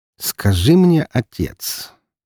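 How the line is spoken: Slow. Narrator (Russian): медленно произнес Роман

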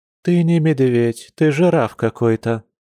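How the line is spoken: Expectant mother sighing. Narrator (Russian): вздохнула будущая мамочка

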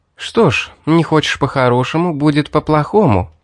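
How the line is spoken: Sighing. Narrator (Russian): вздохнула Мэри

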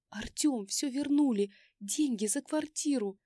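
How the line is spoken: Excited exclamation. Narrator (Russian): воскликнула я

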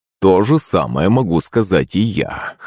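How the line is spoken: Snorting. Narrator (Russian): хмыкнул Шувалов

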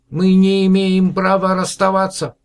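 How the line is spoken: Shouted excitedly. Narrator (Russian): взволнованно кричал Мононам

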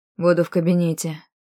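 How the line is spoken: Unnaturally cold. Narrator (Russian): вымолвил он неестественно холодно

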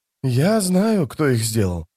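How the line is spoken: Quiet. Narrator (Russian): тихо сказал он

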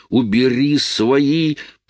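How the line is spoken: Moan. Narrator (Russian): простонала Лоис

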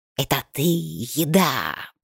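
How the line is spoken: Spitting hiss. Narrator (Russian): прошипела она, брызжа едкой слюной

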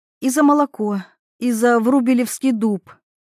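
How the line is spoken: Convulsive sigh. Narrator (Russian): она судорожно вздохнула

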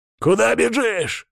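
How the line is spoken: Growling. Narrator (Russian): рычал Радский

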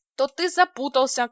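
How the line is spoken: Matter-of-fact statement. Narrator (Russian): констатировала я

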